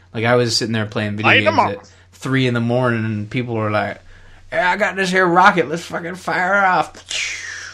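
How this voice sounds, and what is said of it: Backwoods Canadian accent. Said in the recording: “That is the accent that I assume that all these backwoods Canadian folk have.”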